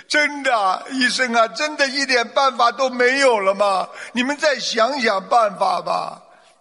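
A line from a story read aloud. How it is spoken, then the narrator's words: Sobbing, tearful family. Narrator (Chinese): 家属闻言哭成泪人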